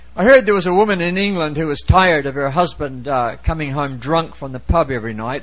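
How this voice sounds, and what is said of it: Accent that may be hard to understand. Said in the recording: “even if my accent is difficult”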